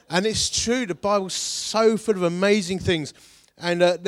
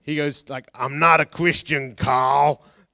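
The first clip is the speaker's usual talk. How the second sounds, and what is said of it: Put-on American accent, slightly condescending. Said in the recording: “Every time I talk about someone from a different country, I want to do an accent. ... But it'll come out Welsh or something. ... every American says my name like that, like slightly condescending. ... It was so accurate.”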